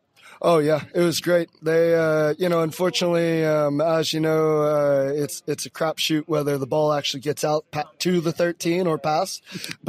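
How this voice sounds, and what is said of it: American accent. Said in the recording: “you can tell from your accent, and some of the listeners will know from your accent, you're not actually from Norway ... I'm originally from Florida”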